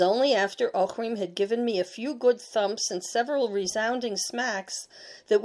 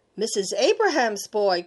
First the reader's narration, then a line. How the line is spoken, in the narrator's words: cried Ochrim